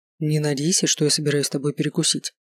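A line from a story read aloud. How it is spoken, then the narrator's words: Matter-of-fact tone. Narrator (Russian): будничным тоном заявил Холодов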